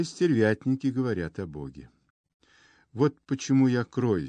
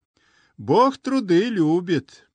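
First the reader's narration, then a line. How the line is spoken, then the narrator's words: Cheerful shout. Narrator (Russian): Крикнул весело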